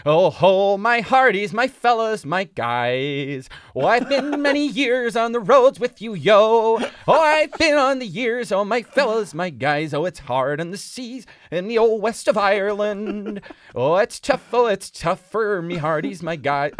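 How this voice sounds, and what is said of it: Put-on North American accent, sung. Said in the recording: “it's just the American accent or Canadian or whatever ... North American. ... Something about that accent singing Irish songs, it's like Disney trad”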